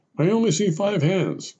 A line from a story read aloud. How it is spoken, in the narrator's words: finally bellowed the sergeant